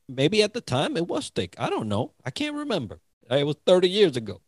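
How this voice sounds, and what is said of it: English accent. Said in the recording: “my accent, right? My English accent.”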